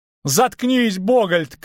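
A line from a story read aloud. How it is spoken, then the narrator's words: Shout. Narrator (Russian): крикнул Лютик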